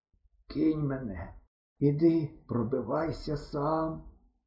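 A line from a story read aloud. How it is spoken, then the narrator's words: Hoarse, hopeless. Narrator (Ukrainian): сказав я хрипло і безнадійно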